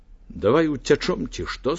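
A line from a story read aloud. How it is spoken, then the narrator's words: Plain. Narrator (Belarusian): сказаў хлопец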